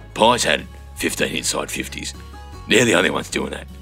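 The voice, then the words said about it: Imitates another person's voice. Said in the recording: “my David King impersonation ... That's my David King.”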